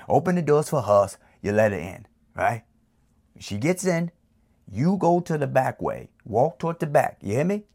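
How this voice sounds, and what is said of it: Put-on Italian New York accent. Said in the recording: “excuse me for my little Italian accent ... in my New York accent”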